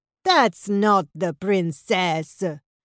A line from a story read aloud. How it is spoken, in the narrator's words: sneered Ravioli